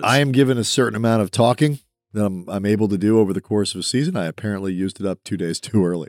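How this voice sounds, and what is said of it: Hoarse, worn-out voice. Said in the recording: “my voice is trash.”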